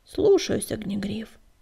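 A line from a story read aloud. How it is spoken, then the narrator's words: Mumbling. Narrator (Russian): промямлил он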